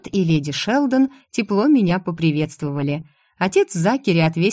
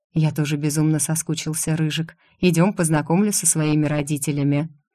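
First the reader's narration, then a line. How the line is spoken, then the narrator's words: Barely audible reply. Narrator (Russian): ответил также еле слышно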